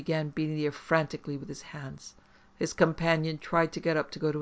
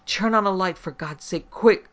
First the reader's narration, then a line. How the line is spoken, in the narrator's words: Moss gasped